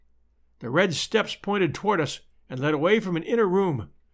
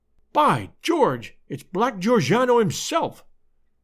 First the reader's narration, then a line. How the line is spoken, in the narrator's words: cried the American detective